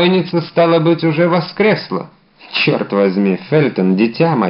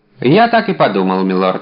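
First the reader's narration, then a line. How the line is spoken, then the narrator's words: Plain. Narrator (Russian): ответил Фельтон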